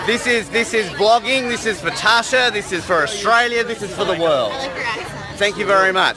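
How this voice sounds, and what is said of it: Speaks with a noticeable accent. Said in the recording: “It's the accent that you say. Oh, I love your accent”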